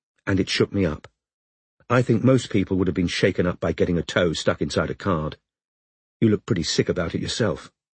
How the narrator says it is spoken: said calmly

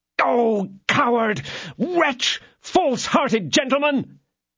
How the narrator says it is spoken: cried D'Artagnan

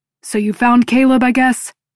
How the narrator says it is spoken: Noah barks

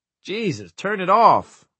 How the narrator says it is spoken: Wireman yelped

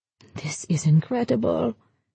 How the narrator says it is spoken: Campbell whispered

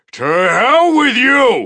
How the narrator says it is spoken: I shouted as I summoned my frenzy

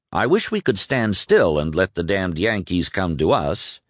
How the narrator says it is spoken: he said in a bantering tone which only partly covered his real concern

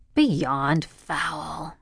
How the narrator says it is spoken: Connie whispered

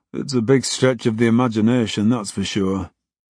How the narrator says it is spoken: Gary sighed

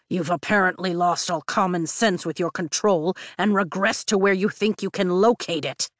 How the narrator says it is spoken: Tarn growls

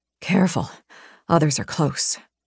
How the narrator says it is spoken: he whispered

